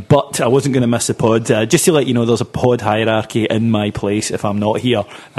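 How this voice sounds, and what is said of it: Congested voice from a cold. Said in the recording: “I'm actually not too well. I've got a bit of a cold”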